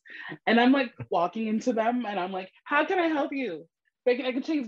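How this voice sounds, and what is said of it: New York accent, distinctive O's. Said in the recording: “I'm from New York ... You hear my accent with all the O's.”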